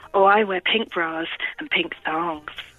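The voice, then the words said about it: Put-on sexy, sultry voice. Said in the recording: “do it in your really sexy voice.”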